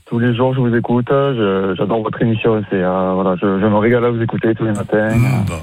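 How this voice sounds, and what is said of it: French regional accent. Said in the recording (French): “Je sens l'accent. Je l'entends, cet accent.”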